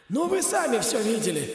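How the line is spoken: Stadium commentator's hoarse wheeze. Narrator (Russian): просипел голос комментатора на стадионе

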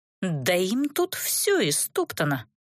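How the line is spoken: Shocked growl. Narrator (Russian): потрясенно прорычала я

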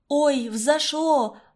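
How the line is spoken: Exclamation. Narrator (Russian): воскликнула

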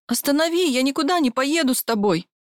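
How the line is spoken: Hysterical screaming. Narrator (Russian): Кричала я в истерике

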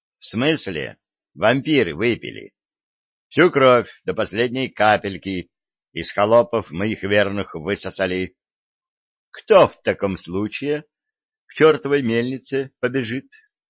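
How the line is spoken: Neutral question. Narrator (Russian): нейтральным тоном спросил сплетник

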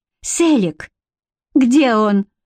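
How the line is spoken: Sharp cry. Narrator (Russian): вскрикнула Бренна

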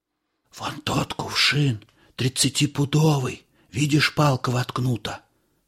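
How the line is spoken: Whispered. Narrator (Russian): шепнул я Илико

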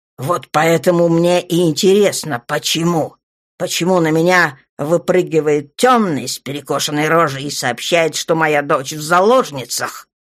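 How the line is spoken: Roar. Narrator (Russian): Взревел Джон

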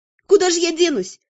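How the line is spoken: Snappish retort. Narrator (Russian): огрызнулась я

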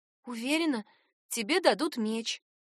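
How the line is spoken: Whisper in ear. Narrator (Russian): прошептала на ухо

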